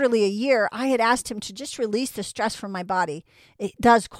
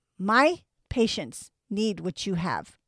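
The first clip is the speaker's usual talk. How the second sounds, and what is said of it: Imitated Chinese accent, broken English. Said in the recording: “He speaks very broken English. And in his Chinese accent”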